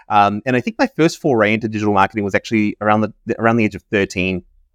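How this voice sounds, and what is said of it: New Zealand accent. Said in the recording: “I have a bit of an accent. I'm from New Zealand originally.”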